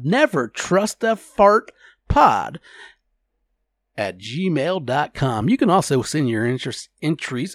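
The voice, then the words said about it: Put-on radio announcer voice. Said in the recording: “Oh, I can't talk when I use this cool radio voice. Maybe I should work on it a little bit harder.”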